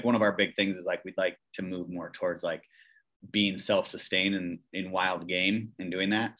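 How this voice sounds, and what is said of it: Wisconsin accent. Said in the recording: “It's his Wisconsin accent.”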